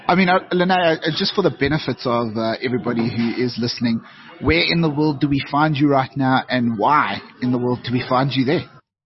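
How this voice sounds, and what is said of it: South African accent. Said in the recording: “I'll keep my South African twang”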